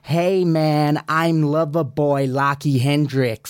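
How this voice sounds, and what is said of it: Put-on American-style accent. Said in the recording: “You going to change your accent? ... why would I change my accent? Do you want me to get a”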